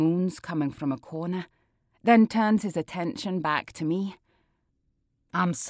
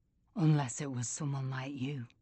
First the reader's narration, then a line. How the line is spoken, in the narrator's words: he whispers